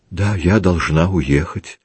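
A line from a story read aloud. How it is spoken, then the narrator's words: Quiet. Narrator (Russian): так же тихо проговорила она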